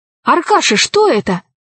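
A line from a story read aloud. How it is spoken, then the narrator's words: Exclamation. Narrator (Russian): воскликнул Пашка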